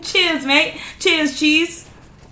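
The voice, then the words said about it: Attempted Australian accent. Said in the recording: “Australian accent ... How's that accent go? ... Maybe that might that. be British.”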